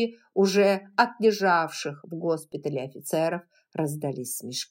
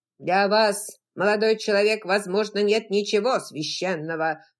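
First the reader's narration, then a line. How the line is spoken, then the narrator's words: Thunderous oratorical voice. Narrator (Russian): сказал он громовым голосом, каким всегда произносил свои речи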